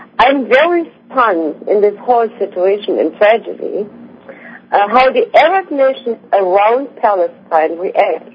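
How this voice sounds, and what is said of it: Speaks with an accent, slowly. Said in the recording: “bear with my accent. I talk slowly”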